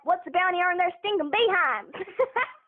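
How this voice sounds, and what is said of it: Put-on Texas accent. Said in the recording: “I've done a Texas accent in front of a couple of actors, and they've been like, oh, wow, that's pretty good ... I can do Texas as well ... That's pretty good.”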